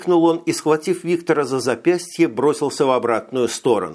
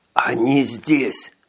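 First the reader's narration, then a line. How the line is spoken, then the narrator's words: Trembling whisper, small man. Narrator (Russian): Прошептал коротышка и мелко задрожал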